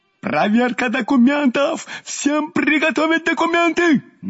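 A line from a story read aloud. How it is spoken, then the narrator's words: Frenzied yelling. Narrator (Russian): Неистово орал наш прежде добродушный участковый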